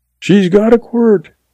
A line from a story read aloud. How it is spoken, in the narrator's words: he yells back